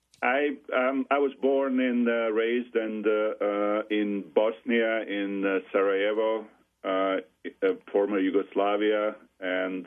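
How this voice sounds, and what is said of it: Foreign accent, not American Midwestern. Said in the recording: “your accent is not from Southern Michigan ... obviously it's not Ohio accent”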